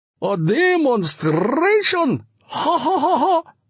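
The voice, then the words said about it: Sing-song accent, nervous polite laugh. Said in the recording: “He had a sing-song accent and a polite and thoroughly nervous laugh.”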